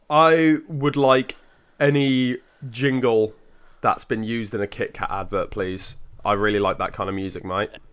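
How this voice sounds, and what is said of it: Attempted Australian accent. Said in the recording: “Australian accent you just tried to do there? That was a bit weird.”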